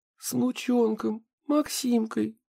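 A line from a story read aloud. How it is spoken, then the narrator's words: Sob. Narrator (Russian): всхлипнула Ксения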